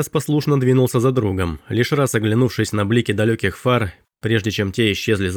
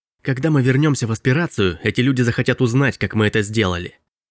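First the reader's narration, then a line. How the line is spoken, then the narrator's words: Hissed. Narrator (Russian): прошипел Робби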